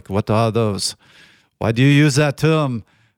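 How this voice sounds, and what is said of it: Poor exaggerated European accent. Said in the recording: “my horrible attempt at an accent ... a little Arnold Schwarzenegger ... I covered every country in Europe at some point in that accent”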